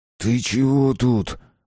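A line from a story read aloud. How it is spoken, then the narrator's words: Angry hiss. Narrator (Russian): прошипел Гиндос, злясь одновременно на пацана и на себя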